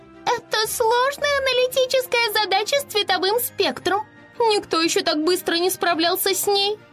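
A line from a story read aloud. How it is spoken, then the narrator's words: Admiring pixie squeak. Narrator (Russian): Восхищенно пропищала Афина, пикси-хранительница облачной башни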